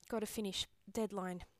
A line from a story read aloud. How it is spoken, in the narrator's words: he mumbles against my mouth